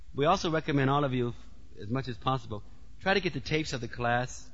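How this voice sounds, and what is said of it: Heavy accent, somewhat fast speech. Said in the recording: “I've been talking a little fast. My accent is sometimes a little heavy.”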